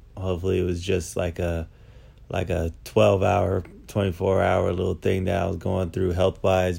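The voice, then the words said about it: Voice sounds a little off. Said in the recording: “my voice sounds a little off, it's because I'm recovering from something right now”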